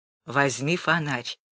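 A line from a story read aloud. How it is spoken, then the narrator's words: Whisper. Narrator (Russian): сказал Гулия шепотом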